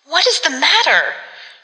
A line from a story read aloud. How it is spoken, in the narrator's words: she cried